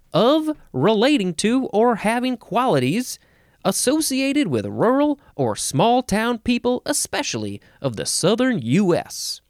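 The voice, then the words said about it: Put-on down-home Southern US accent. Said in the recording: “Should I do this whole thing with a down home accent? ... Okay, I won't keep that up ... sometimes we got to have fun with the voices”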